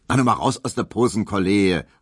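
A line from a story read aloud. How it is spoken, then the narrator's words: Called out. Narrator (German): rief Herr Tesch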